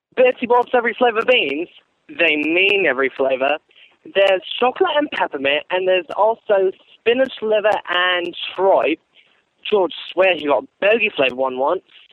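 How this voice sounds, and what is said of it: Imitates Ron Weasley character voice. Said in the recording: “I'll be doing an impersonation of Ronald Weasley”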